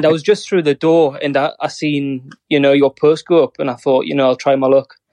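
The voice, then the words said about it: Northern English accent. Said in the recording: “I have an English Northern accent”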